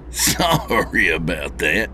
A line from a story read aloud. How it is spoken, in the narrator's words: he said with a chuckle